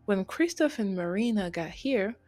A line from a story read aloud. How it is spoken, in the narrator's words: Angel called out